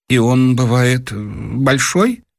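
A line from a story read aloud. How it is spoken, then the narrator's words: Choking, timid question. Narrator (Russian): Дровосекин как бы поперхнулся и робко спросил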